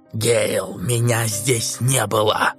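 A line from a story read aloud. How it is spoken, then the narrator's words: Excited hoarse whisper. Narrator (Russian): Прохрипел возбужденным шепотом, мало походившим на нормальный голос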